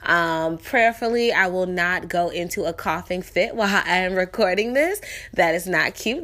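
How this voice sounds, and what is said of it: Sick-sounding voice. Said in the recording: “I don't know if you guys can hear it in my voice, but I am sick”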